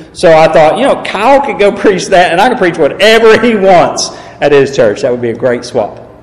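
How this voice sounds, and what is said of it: Southern drawl, East Tennessee accent. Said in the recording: “I do have a southern accent ... I do have a southern drawl. I am originally from East Tennessee.”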